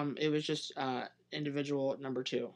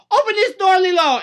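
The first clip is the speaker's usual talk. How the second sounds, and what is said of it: Bad put-on accent. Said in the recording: “Who was that accent supposed to be? ... That was very bad. ... Was supposed to be Hawaiian? ... it wasn't good.”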